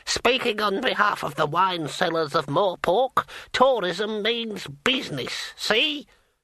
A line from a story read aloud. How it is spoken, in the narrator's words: An old bearded man cackled